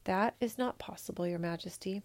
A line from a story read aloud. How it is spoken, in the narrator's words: he said quietly